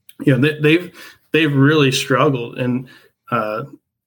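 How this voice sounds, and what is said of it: Choked-up, emotional voice. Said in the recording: “I'm getting a little, a little choked up here”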